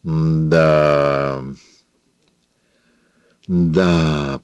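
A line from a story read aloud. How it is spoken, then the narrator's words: Drawn out. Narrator (Russian): протянула она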